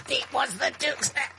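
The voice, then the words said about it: Imitates another person's voice. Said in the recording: “You do the best Don Ameche impression.”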